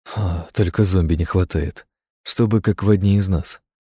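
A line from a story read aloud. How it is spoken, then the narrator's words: Quiet. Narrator (Russian): негромко сказал Кедров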